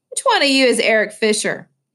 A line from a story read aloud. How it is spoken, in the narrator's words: Luis called out